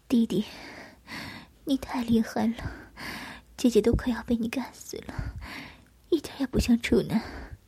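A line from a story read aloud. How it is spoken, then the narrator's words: Hoarse, exhausted. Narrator (Chinese): 缓了半天，才用沙哑的声音对我说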